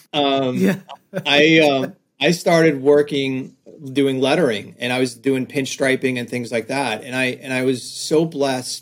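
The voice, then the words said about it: Slight New York accent. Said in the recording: “my little New York accent coming out a little bit”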